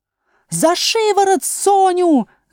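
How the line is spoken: Screaming. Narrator (Russian): завопила королева

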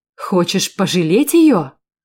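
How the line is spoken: Exclamation. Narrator (Russian): воскликнул он

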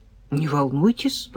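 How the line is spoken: Mutter. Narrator (Russian): пробормотал капитан

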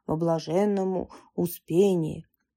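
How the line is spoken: Deep bass voice. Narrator (Russian): диакон густым басом произнес

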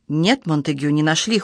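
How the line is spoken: Cold reply. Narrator (Russian): холодно ответил он

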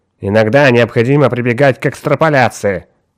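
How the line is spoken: Irritable tone. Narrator (Russian): раздражительным тоном отозвался доктор Браун

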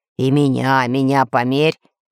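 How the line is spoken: Deep bass voice. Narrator (Russian): пробасил Буль-Буль

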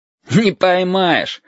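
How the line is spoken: Laughing. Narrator (Russian): засмеялся Витька

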